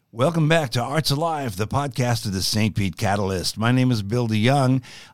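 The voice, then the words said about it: Radio announcer voice. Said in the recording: “doing my radio announcer voice”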